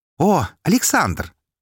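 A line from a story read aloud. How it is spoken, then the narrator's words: Joyful exclamation. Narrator (Russian): радостно воскликнул Альф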